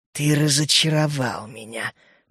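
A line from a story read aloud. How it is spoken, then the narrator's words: Hissed. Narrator (Russian): прошипела она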